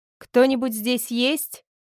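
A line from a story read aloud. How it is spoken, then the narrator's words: Shout. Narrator (Russian): крикнула Кира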